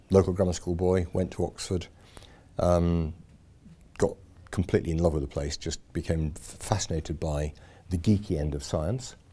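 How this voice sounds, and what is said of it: Slight Yorkshire accent. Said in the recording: “So I'm a Yorkshireman. Um, there's a bit of accent left, I think. Um, it gets slightly worse when I'm back over there.”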